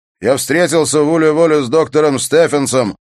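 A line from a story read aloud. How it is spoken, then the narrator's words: Shouted. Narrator (Russian): прокричал он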